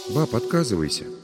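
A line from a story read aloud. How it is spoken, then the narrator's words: Quiet, serious. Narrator (Russian): тихо и серьезно проговорила Надя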